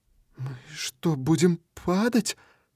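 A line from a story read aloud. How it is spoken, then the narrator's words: Trembling voice. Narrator (Russian): спрашивает она дрожащим голосом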